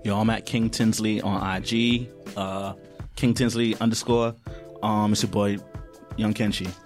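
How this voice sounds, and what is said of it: Smooth deep radio-DJ bedroom voice. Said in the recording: “He always puts on the I'm trying to get into the bedroom voice ... that's the radio voice ... He got the Johnny Gill my radio voice ... at the 98.7 voice”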